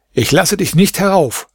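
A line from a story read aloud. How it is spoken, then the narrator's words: Call out. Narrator (German): rief er ihm zu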